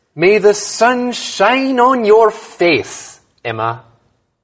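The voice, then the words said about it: Slight put-on Irish accent. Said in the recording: “Did I sound Irish? ... A little.”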